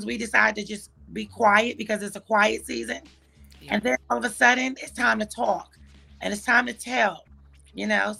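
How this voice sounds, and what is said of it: Hoarse voice. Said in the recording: “excuse my voice. It hasn't come back from Saturday. ... I'd be hoarse too.”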